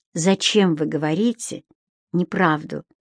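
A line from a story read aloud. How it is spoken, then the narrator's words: Soft. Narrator (Russian): мягко сказала Геонея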